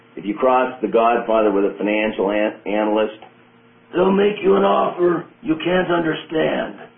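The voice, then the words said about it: Imitates another person's voice. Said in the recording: “I'll use my best Marlon Brando accent here.”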